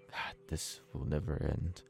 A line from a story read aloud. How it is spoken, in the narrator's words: Cendric whispers to himself